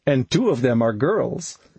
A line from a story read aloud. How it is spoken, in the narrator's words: he added blushingly, followed by more shrug chuckling